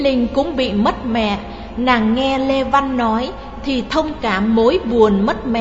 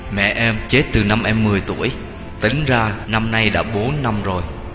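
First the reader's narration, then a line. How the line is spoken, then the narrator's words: Sad low voice. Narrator (Vietnamese): Lê Văn xịu mặt xuống, nó trả lời bằng giọng trầm trầm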